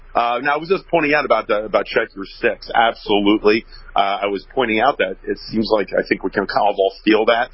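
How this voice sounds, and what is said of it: Slightly off, unwell-sounding voice. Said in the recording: “my voice is a little off, I'm a little bit under the weather”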